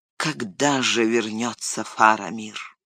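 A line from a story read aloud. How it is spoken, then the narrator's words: Sad sighing. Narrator (Russian): Гэндальф, тоскливо вздохнув, сказал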